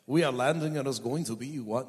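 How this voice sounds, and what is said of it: Poor put-on French accent. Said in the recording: “That's not a good French accent.”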